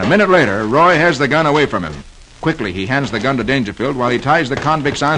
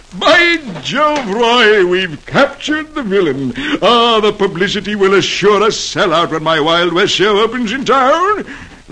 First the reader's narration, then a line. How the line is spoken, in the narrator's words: Dangerfield exclaims